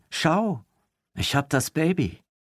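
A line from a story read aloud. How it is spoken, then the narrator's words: Call. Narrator (German): rief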